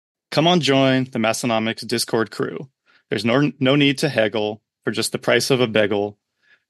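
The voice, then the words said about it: Put-on South Dakota accent. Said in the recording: “best read in a traditional Western Northeast South Dakota accent. So if it doesn't make any sense, it's the accent.”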